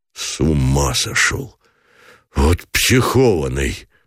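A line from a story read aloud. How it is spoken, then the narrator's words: Breathless, half laugh half sob. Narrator (Russian): выдохнул Гранатуров, глотком проталкивая не то смех, не то всхлип в горле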